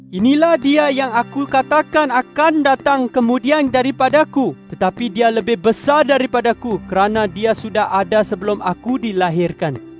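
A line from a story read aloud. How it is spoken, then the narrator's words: Exclaiming. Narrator (Indonesian): Yohanes berseru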